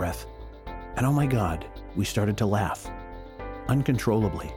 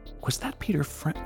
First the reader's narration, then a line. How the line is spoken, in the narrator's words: with a very confused look on her face, quietly said